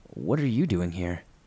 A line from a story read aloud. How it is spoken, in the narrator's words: I calmly and instinctively answered and asked her